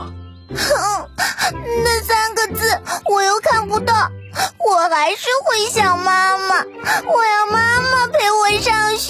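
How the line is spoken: Crying child. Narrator (Chinese): 依依又不想上学了，她哭着说

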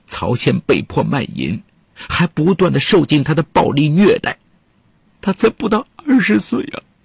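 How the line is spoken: Sad tearful complaint. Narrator (Chinese): 杨金凤伤心地对记者哭诉

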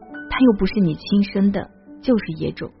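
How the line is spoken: Muttering. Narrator (Chinese): 有人嘀咕

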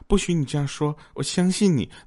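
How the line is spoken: Gentle voice. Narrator (Chinese): 女人温柔的说

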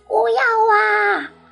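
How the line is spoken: Shouting. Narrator (Chinese): 哼哼想大声喊

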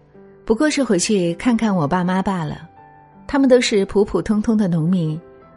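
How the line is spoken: Smiling. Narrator (Chinese): 朋友笑了笑说

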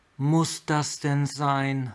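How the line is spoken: Sighing. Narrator (German): seufzte

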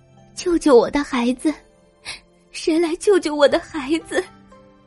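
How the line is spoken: Crying. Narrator (Chinese): 一只燕子在哭泣

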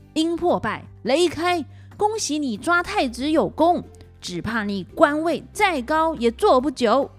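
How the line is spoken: Furious shout. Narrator (Chinese): 黄飞虎火从心中起，怒向胆边生，大叫着

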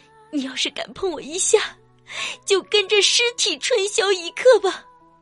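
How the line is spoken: Crying. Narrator (Chinese): 哭着说道

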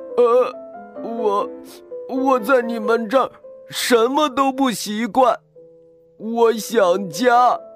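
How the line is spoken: Loud sobbing. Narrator (Chinese): 科科 一下子愣住了，接着就放声大哭起来

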